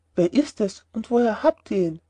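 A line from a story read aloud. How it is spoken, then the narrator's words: Plain question. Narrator (German): fragte der Apotheker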